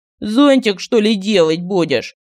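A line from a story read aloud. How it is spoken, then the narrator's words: Mocking question. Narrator (Russian): Насмешливо поинтересовался Мар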